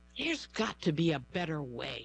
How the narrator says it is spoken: Stephanie Payo sighed, frustrated after another long day at work

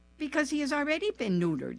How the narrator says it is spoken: she laughed

